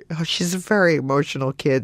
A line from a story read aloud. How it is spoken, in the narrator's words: And Marty started to laugh, like, really nervously